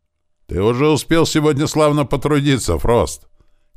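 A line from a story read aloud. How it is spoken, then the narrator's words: Shouted. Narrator (Russian): крикнул десятник стражи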